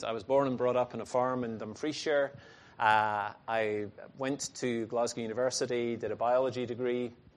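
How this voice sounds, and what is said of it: Scottish accent. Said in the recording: “I'm Scottish, as you may be able to tell from my strange accent.”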